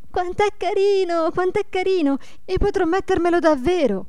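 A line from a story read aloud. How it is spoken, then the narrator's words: Excited repeated shouting. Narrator (Italian): gridando ad ogni momento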